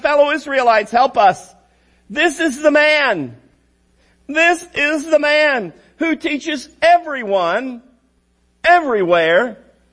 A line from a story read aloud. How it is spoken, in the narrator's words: shouting